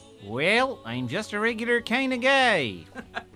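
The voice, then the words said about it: David Lynch impression. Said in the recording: “that David Lynch impression I used to do on the Scun On podcast ... That sounds more like Fargo.”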